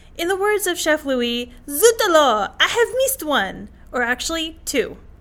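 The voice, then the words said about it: Put-on French accent. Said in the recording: “your French accent is pretty decent”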